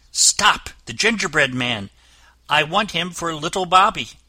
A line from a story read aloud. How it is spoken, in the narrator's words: she cried